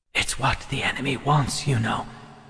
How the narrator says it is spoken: Alex's Ogash whispered

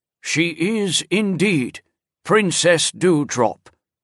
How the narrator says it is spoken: the guardian said solemnly

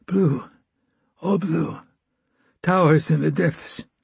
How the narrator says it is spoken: He said, in a whistling whisper

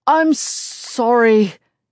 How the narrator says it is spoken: he stutters, looking completely dazed

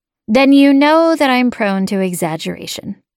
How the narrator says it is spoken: I said

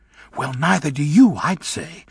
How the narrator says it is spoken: said Bach in an explosive whisper

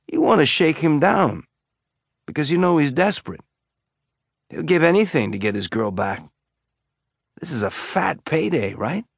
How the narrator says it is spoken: Amos said, his tone friendly and conversational

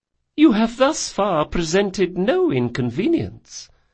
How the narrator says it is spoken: said Madame Corvalur sweetly

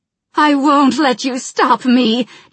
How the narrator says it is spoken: Jaina shouted

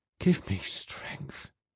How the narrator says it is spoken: she whispered

